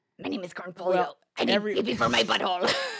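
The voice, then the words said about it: Beavis impression. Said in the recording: “I also do a pretty good ... great Beavis and Butthead impression ... I can only do Beavis.”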